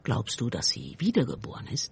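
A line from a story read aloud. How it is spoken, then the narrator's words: Quiet question. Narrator (German): fragte Mick leise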